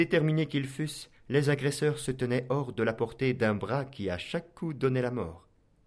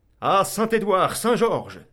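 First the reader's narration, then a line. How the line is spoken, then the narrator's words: Knight's battle cry while fighting. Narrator (French): s'écria le chevalier noir en abattant un homme à chaque invocation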